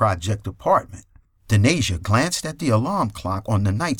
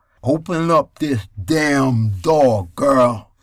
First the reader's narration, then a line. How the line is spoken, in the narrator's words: Kirk Shepard slurred